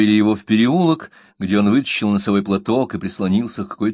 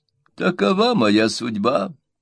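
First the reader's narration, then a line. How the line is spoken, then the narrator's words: Sobbing yet elegant exclamation. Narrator (Russian): воскликнул мистер Микбер, непритворно всхлипывая, однако не без оттенка была элегантности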